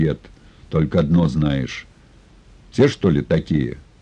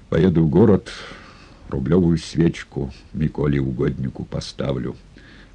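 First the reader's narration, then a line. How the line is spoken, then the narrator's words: Vow. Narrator (Russian): поклялся он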